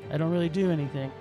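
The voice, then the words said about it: Flat, emotionless impression of another voice. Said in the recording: “I have no emotion. I talk like this. ... doing a Keanu Reeves impression ... It was so Keanu”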